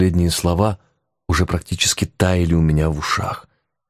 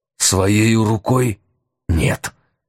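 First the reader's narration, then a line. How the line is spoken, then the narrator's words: Ghost's hiss. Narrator (Russian): прошипел призрак Брыкина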